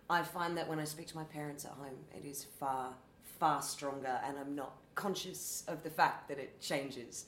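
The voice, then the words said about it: Toned-down Australian accent. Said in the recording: “my Australian accent is really weird. I come in and out of it ... much broader Australian accent as well. So I think I've toned it down”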